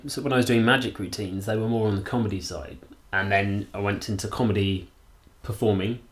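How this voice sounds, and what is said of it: Very middle-class sounding voice. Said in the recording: “I hear it's the most middle-class voice in the entire world.”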